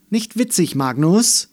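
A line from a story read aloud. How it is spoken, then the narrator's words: Stern but nervous. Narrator (German): sagte sie streng, aber das Herz klopfte ihr in der Brust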